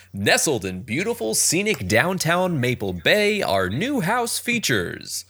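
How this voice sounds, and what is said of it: Cheesy announcer voice. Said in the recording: “do my best cheesy announcer voice”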